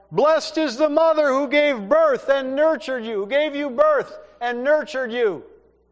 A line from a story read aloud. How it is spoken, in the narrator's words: a woman who yelled out